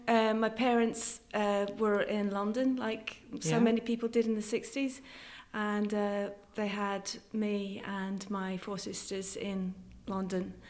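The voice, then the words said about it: English-sounding accent. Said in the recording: “some people think I'm English because of my accent”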